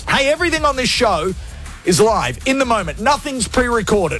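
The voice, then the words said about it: Loud, shouted radio announcer voice. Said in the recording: “I am screaming, doing radio voice.”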